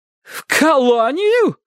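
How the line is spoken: Startled cry, older woman. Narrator (Russian): вскрикнула тетушка

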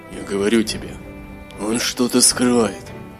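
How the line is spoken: Whispered. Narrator (Russian): сказал шепотом Гилрой

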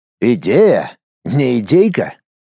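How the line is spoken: Snorting. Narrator (Russian): хмыкнул Семичастный

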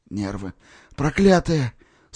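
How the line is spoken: Groan through teeth. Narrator (Russian): сквозь зубы простонал Коля

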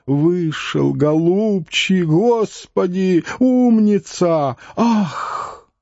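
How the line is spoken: Crowd roaring. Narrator (Russian): Взревела вся площадь, а лысоватый слезливо и тонко застонал

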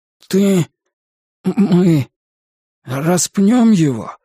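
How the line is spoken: Strained, forced out. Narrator (Russian): наконец сумел выдавить из себя мусорный бак

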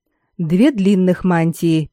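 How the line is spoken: Even voice. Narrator (Russian): перечислила ровным голосом

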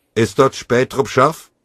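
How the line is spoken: Voice calling. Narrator (German): rief eine Stimme

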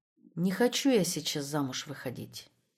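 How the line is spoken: Quiet. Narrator (Russian): тихо сказала она

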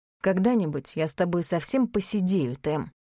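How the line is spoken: Amused snort. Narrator (Russian): хмыкнул он

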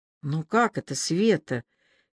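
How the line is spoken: Barely audible speech. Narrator (Russian): едва слышно произнесла Аля

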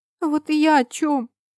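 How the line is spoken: Sobbing. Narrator (Russian): всхлипывала Марика

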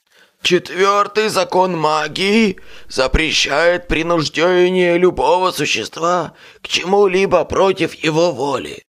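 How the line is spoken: Hoarse rasp. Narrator (Russian): прохрипел я

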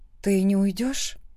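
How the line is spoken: Quiet question. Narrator (Russian): спрашиваю тихо

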